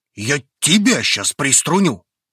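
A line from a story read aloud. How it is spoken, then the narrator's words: Angry, harsh. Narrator (Russian): Ответил ему Рун настолько зло и жестко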